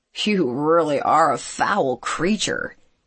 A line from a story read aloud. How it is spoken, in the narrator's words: he muttered